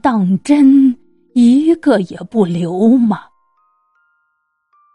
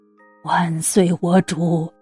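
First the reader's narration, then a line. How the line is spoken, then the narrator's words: Low pleading voice. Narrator (Chinese): 徐达低声哀求道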